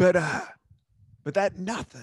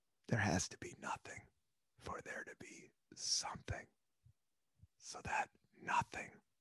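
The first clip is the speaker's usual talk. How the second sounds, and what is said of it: Dramatic whisper. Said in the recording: “I don't know why I'm whispering, but kind of gives it a dramatic effect.”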